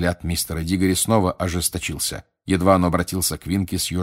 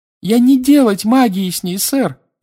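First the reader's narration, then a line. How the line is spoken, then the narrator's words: Squeal. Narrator (Russian): взвизгнула Винки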